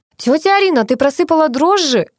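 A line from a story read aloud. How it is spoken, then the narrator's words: Shouted. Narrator (Russian): закричала Надя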